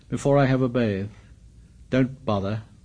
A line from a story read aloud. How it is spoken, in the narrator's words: muttered Jack